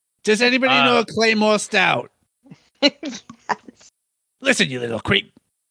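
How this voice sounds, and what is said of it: Cartoon bartender Moe Szyslak impression. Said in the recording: “My first attempt at a Moe impression ... Moe Szyslak”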